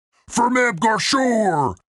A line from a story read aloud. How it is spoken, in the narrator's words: shouted Grunt